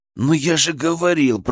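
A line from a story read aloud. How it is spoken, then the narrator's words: Hissed. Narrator (Russian): прошипел я Кристине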